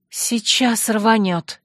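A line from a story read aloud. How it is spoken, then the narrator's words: Breathless exhale. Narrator (Russian): выдохнула Ирма, перепрыгнув через чью-то могилу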